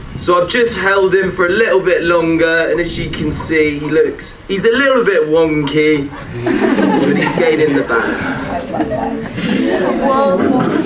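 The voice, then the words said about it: Speaker with a noticeable accent. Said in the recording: “God died for that accent too.”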